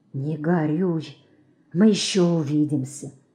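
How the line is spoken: Calm quiet whisper. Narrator (Russian): бледный, но спокойный, тихо шепнул ему

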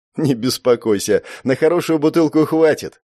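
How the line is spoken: Laughing young man. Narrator (Russian): рассмеялся парень

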